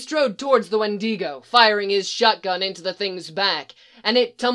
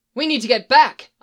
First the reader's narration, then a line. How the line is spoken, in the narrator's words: I exclaimed